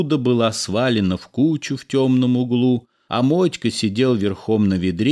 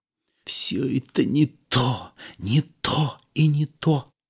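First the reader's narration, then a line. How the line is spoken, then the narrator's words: Sarcastic whisper, cook. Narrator (Russian): повар Никодимов шептал саркастически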